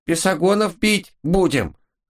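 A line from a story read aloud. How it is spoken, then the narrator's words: Brave squeak. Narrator (Russian): храбро пискнул какой-то не очень умный бес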